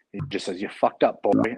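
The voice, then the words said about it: Thick Irish accent. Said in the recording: “he had this thick Irish accent because the fucker was from Ireland”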